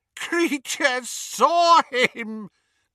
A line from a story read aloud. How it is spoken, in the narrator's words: gasped the elf, as tears poured over his snout and into his mouth full of graying teeth